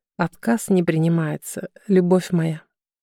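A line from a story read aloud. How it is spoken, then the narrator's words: Quiet, smirking. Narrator (Russian): усмехнулся, тихо добавил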